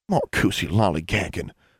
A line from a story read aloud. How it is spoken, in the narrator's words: Constance muttered